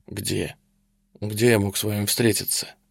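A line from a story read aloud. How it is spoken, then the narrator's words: Muffled, hollow reply. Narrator (Russian): глухо отозвался майор Тешман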